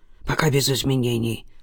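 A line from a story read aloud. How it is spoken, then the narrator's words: Mumble. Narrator (Russian): пробормотал детектив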